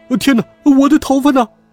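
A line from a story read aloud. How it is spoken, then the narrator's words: Loud wailing cries. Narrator (Chinese): 人们哇哇大叫道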